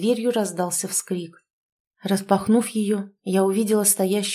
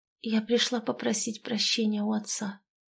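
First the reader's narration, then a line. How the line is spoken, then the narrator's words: Barely audible. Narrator (Russian): еле слышно молвила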